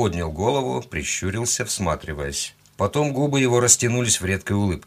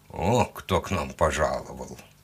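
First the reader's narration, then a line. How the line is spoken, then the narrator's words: Grumbling. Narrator (Russian): проворчал он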